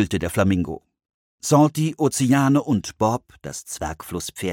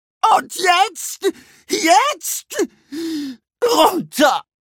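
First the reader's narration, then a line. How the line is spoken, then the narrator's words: Bellowing. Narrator (German): brüllte Wade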